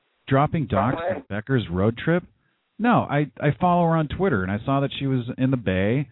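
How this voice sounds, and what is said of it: Usual voice. Nothing is said of it.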